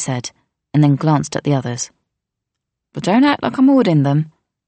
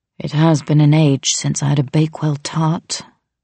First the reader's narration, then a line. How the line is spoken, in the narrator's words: Mateo said wistfully